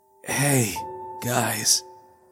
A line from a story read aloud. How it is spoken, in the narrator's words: managed weakly